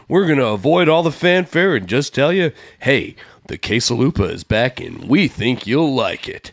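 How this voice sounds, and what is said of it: Announcer voice. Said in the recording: “That's in my announcer voice.”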